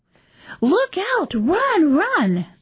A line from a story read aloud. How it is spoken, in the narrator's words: The children … shrieking and squealing, … with excitement